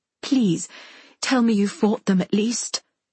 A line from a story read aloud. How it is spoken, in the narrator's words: Mother says, her voice strangled